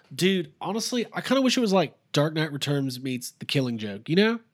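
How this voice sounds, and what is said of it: Mocking impression of an annoying fan. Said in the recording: “my impression of the worst Batman fan”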